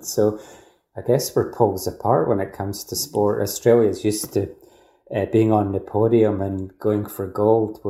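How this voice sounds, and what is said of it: Scottish accent. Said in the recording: “you'll guess from my accent. I'm not from Australia originally, from Scotland.”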